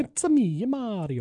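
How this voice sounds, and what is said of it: Exaggerated Italian accent, Mario voice. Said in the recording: “the go-to Italian impression is”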